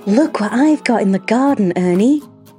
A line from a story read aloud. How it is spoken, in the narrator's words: Auntie Claire excitedly exclaimed